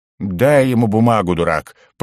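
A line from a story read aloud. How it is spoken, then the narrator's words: Hissed through teeth. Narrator (Russian): процедил угорь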